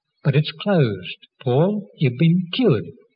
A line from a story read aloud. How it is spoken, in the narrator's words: She exclaimed